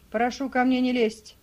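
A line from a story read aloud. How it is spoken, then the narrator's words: Fierce snapping retort. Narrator (Russian): свирепо огрызнулся мулат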